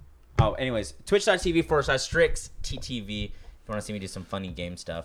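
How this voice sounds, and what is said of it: Usual voice. Nothing is said of it.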